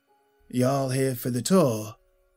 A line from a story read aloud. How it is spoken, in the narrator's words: Jackson said in a calm southern drawl, a confident tone